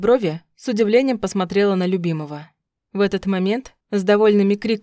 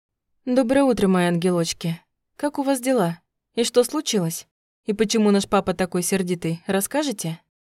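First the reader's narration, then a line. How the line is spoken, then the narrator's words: Cooing. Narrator (Russian): Ворковала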